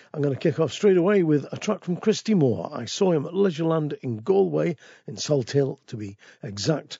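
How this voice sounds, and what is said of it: Very deep voice, head cold. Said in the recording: “this little bit of a head cold I've got, which means that my voice is very deep and sexy”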